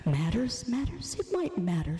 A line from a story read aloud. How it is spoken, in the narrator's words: she says sweetly